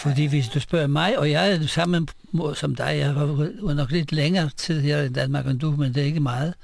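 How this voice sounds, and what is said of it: Speaks Danish with a foreign accent. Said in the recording (Danish): “jeg har accent, og folk spørger mig ... hvor kommer du fra?”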